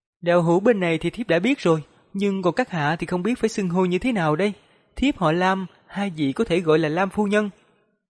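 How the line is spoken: Smiling, middle-aged woman. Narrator (Vietnamese): Vị phu nhân trung niên mỉm cười rồi mới nói

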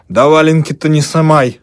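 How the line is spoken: Old woman shouting. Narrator (Russian): крикнула старуха

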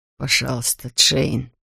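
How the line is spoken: Whisper. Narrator (Russian): прошептал

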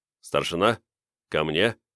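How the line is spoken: Quiet command. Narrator (Russian): негромко скомандовал я

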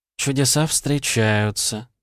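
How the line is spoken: Purring, female demon. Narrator (Russian): промурлыкала демонесса

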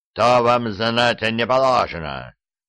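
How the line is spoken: Barked. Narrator (Russian): рявкнул Дубьен

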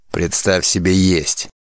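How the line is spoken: Angry mutter. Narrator (Russian): Сердито буркнул Мано

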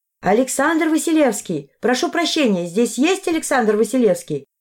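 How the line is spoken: Shouting. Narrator (Russian): прокричала я

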